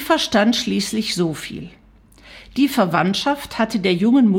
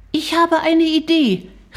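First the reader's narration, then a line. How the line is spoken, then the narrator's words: Calling out. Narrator (German): rief Shari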